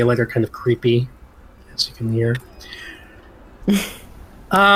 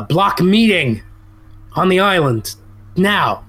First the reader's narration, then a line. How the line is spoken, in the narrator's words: Barkalow's yelling out